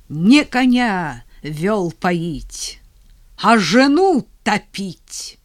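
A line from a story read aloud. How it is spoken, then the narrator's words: Angry hostile near-shout. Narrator (Russian): она почти выкрикнула зло, враждебно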